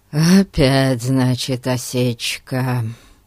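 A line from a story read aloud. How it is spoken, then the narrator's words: Disappointed sigh. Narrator (Russian): разочарованно вздохнул Ларри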